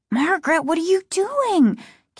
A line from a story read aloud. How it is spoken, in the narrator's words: Casey asked, his voice high and frightened